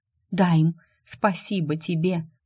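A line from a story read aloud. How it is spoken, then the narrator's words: Grateful whisper. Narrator (Russian): шепнула она, осознавая, какое сокровище доверил ей Дайм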